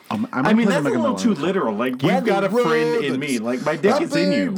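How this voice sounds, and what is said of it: Usual voice. Nothing is said of it.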